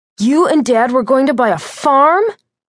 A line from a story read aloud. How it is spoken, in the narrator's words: Jeff cried, his voice ebullient